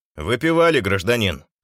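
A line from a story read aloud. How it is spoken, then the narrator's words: Stern question. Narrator (Russian): строго осведомился один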